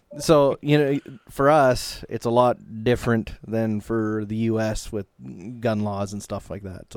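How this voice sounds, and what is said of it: Canadian English accent. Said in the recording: “we're Canadian, if you haven't noticed yet. ... Yeah, I heard the accent.”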